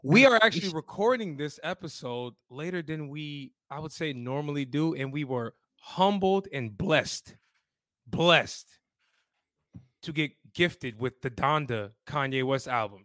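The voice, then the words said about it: Raspy, hoarse voice. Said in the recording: “Please excuse my raspy voice ... I did too much partying this weekend, guys. You know, my voice.”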